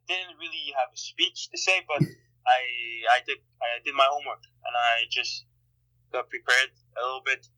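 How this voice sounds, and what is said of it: Slight Montreal French accent. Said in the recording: “I can hear a little bit of your, your Montreal accent”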